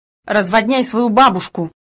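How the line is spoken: Snapping retort. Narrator (Russian): огрызнулся Грут

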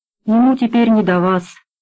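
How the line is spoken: Muffled voice. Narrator (Russian): глухим голосом сказал глушанин

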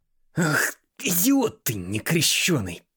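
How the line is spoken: Hiss close to ear. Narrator (Russian): прошипел Робинс над самым его ухом

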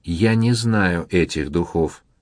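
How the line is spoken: Plain. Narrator (Russian): сказал он

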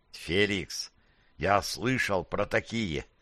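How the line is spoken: Whispered muttering. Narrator (Russian): Перейдя на шепот, пробормотал Распутин

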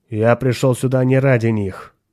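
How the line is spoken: Cold statement. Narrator (Russian): холодно сказал хранитель культа

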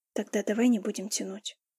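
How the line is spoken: Whisper. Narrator (Russian): прошептал он

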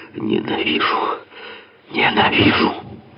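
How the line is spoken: Hissing, whistling outburst. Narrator (Russian): из узкого рта со свистом и шипением вырвалось

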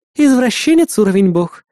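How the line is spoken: Laughing chuckle. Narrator (Russian): хохотнула Эрис

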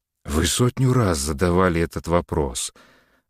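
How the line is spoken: Tired reply. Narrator (Russian): ответил Самарин устало

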